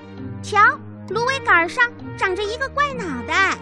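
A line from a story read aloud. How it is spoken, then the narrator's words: Sudden startled cry. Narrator (Chinese): 刺猬突然惊叫起来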